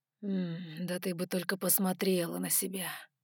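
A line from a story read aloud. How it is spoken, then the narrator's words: Near moan. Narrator (Russian): Почти простонал он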